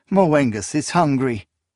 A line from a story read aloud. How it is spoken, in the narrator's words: she laughed